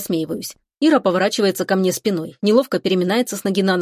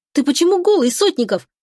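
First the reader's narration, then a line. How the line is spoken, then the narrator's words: Indignant woman's yell. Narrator (Russian): Возмущенно вопит она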